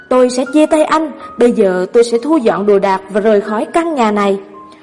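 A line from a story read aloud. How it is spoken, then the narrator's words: Exasperated woman shouting. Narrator (Vietnamese): Một cặp vợ chồng mới cưới cãi nhau, người vợ cuối cùng không chịu được và hét lên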